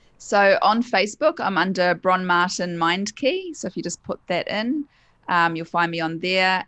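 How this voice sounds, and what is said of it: New Zealand accent. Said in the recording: “I love the accent ... the Kiwi dulcet tones”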